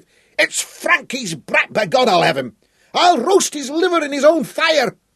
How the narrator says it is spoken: he shrieked, then lapsed into crimson-faced, inarticulate rage

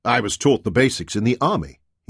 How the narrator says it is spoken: he replied

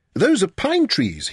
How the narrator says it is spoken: he exclaimed

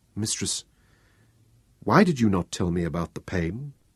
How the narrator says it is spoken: asked gently

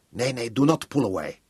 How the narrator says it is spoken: she told him, making her voice stern and angry

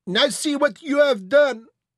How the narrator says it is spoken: cried Leblanc

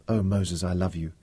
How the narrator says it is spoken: she whispered

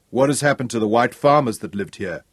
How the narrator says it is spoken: Craig asked

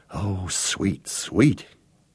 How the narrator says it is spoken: he whispered, as he saw the fine outlines of the old Bentley engine block

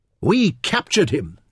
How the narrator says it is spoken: Nefertiti said triumphantly

